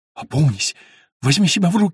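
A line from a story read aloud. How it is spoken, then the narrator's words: Faint babbling. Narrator (Russian): лепетала Фантина, близкая к обмороку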